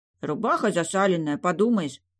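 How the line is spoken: Grumbled. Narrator (Russian): пробурчал Ростислав

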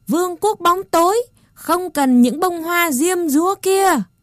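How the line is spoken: Rat soldiers yelling. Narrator (Vietnamese): Bọn lính chuột gào theo

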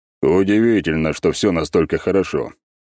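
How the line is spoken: Snort. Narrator (Russian): хмыкнул шагавший за мной Аршавин

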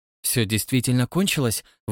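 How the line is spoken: Breathless exhale. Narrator (Russian): выдохнула Марша

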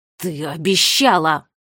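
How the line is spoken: Hissing. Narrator (Russian): прошипел юный детектив

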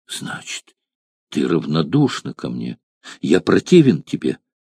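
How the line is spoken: Sad question. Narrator (Russian): печально спросил Гал

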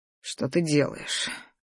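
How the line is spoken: Slightly husky voice. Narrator (Russian): Его голос с легкой хрипотцой

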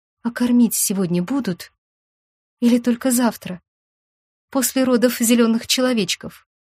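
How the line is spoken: Very quiet question. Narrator (Russian): Сестра очень тихо спросила

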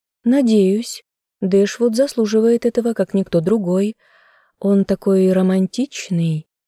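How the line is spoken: Dreamy sigh. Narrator (Russian): мечтательно вздохнула

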